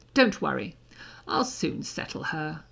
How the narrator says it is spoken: Draco added ominously

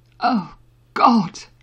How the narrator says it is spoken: Harry gasped

